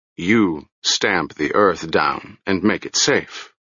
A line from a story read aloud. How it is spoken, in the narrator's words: the chief said dryly